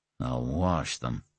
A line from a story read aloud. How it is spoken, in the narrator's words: he muttered